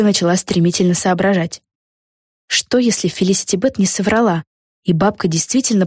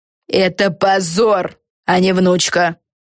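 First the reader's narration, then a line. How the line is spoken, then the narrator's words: Harsh bark. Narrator (Russian): рявкнула Силия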